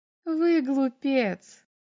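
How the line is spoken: Laughing. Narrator (Russian): засмеялась она

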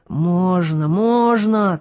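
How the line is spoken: Triumphant, menacing repetition. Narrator (Russian): торжествующе грозно повторяла Любка

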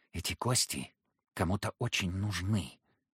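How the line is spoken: Hoarse whisper. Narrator (Russian): проговорил он хриплым шепотом

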